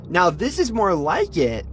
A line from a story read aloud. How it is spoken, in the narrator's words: Mel exclaimed, laughing